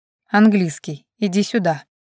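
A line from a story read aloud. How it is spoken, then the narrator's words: Husky, aroused voice. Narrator (Russian): произнес он голосом с хрипотцой, по которой можно было понять, как сильно его возбуждение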